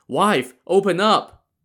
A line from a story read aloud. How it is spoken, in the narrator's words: shouted